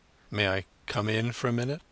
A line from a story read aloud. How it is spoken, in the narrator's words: He was steadying his voice with an effort